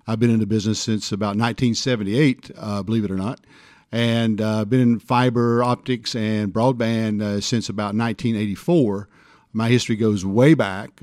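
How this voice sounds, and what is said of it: Tennessee drawl. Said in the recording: “you might have the best accent of everybody in this field... Tennessee drawl... It's, it's very, very fun to listen to.”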